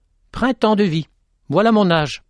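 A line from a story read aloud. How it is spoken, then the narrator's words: Exclaiming. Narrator (French): s'exclama Petit-Jean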